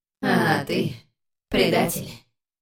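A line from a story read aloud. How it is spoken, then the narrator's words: Hissing. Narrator (Russian): прошипела она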